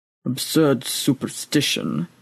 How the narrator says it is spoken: muttered the old priest into his breather

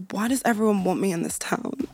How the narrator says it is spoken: Giving a slanted smile and murmured

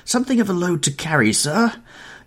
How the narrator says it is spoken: gasped the little man when they reached the top landing

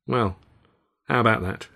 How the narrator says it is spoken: said flatly

